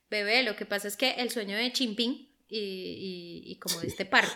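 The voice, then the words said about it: Put-on foreign accent. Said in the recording (Spanish): “Y el acento.”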